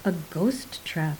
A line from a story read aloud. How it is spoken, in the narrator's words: said Garden softly